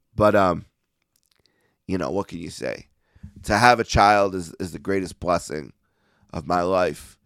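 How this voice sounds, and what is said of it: Hoarse, fading voice. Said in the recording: “I'm losing my voice a little bit here at the end.”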